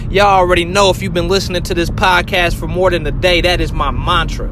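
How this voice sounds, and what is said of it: Pumped-up, excited energetic voice. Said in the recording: “You should hear it in my voice, y'all. I'm pumped up. ... I'm motivated. I am excited”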